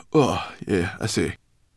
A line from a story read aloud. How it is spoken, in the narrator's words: muttered Sorrel